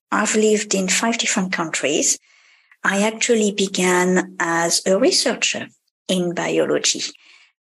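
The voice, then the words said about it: French accent. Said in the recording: “probably you can guess from my accent, I'm a French woman”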